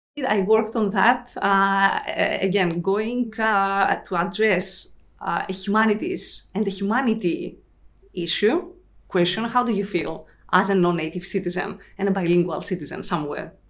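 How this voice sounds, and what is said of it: Non-native English accent. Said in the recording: “I'm sure you've noticed my accent.”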